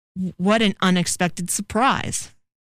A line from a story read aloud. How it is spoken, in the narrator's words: Beelzebub stammered